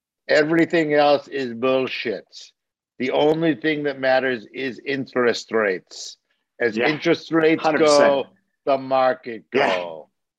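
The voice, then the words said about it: Thick German accent impression of John Slade. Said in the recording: “my poorly done imitation here in his thick German accent”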